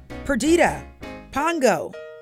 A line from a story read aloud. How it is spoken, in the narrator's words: Roger called out